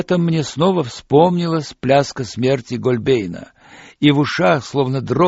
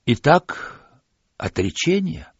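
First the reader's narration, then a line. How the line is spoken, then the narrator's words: Quiet question. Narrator (Russian): тихо спросил царь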